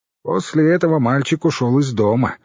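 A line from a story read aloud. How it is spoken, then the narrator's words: Gloomy. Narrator (Russian): мрачно сказала Ирон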